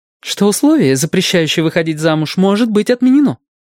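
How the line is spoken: Fast, irritated. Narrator (Russian): быстро и раздраженно заговорила Фрэн Челлейн

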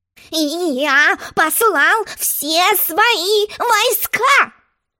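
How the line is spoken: Excited king shouting. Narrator (Russian): возбужденно крикнул король

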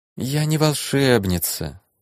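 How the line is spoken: Tired voice. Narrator (Russian): устало произнесла девушка

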